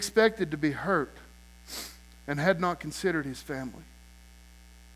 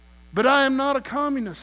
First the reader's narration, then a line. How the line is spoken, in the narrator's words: he cried